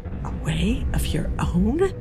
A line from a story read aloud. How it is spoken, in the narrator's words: She whispered